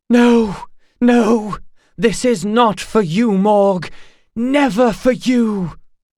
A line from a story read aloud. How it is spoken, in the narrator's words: Baal's long-dead voice cried